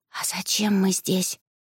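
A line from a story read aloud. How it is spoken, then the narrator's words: Whispered question. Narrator (Russian): шепотом поинтересовалась моя невеста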